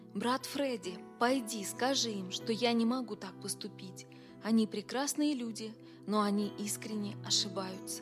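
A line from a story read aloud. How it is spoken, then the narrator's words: Whispered. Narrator (Russian): Билл сказал шепотом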